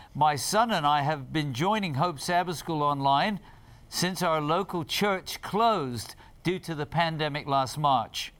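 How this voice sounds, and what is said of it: Put-on British accent. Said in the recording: “I tried to do that with a British accent”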